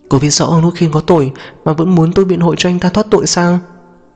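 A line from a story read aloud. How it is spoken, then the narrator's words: Flustered, somewhat afraid. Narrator (Vietnamese): Diêu Vũ bắt đầu cuống lên, có chút sợ hãi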